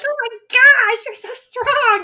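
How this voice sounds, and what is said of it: Goblin character voice. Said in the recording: “Love your goblin voice. That's a good goblin voice.”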